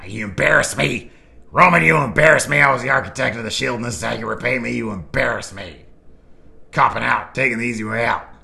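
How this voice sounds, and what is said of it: Seth Rollins impression. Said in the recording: “my Seth Rollins impression ... That's decent, I guess.”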